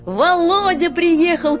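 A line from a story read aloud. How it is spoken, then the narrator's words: Distant shout. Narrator (Russian): крикнул кто-то на дворе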